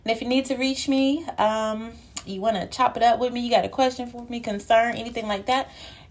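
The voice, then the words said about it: Winded, out-of-breath speaking. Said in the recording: “if I sound a little winded ... I'm out of breath, y'all, because I'm out of shape”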